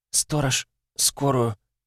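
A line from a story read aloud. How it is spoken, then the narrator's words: Hoarse rasp. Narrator (Russian): Прохрипела она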